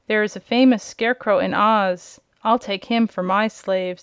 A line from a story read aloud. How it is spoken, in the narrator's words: said a counselor